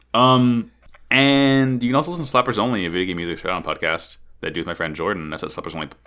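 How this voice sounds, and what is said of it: Speaking very fast. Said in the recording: “I'm talking too fast.”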